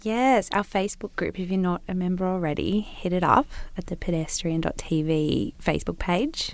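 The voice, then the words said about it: Soothing, nasal Newcastle accent. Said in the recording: “I have a soothing voice in the podcast ... my nasal little Newcastle accent”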